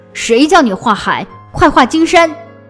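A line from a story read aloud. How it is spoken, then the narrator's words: Angry official. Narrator (Chinese): 大官发怒了，说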